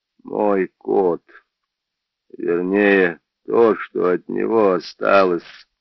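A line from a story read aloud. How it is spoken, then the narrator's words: Muffled, broken voice. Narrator (Russian): глухо надломленным голосом сказал Джордж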